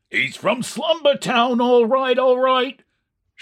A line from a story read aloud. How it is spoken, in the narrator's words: shouted another